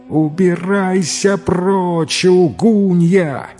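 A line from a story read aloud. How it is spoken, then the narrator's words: Wife's wild scream. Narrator (Russian): завопила жена не своим голосом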